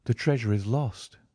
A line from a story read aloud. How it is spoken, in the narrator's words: said Miss Morstan calmly